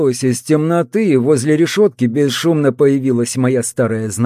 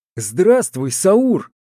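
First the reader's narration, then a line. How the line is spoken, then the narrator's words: Joyful greeting. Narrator (Russian): радостно поприветствовал ее я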